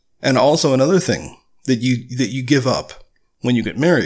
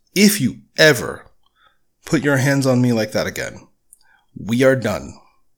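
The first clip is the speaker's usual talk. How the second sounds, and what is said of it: Stern, firm voice. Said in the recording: “I said in a very stern voice”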